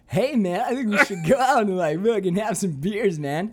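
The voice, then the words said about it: Imitates another person's voice. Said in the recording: “his impression of you ... That's how she sounds.”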